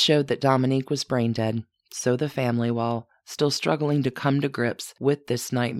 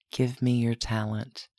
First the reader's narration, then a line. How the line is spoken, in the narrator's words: whispered